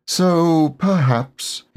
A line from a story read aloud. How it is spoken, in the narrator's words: he said sadly to himself